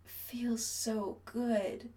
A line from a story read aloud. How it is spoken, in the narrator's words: Chris slurs